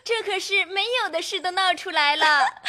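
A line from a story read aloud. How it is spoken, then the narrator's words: Group laughing. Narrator (Chinese): 众人都笑说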